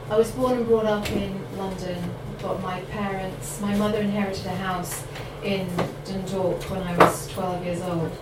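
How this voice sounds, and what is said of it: Mixed Irish and London accent. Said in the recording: “my accent ... I've had a sort of Ireland, London background.”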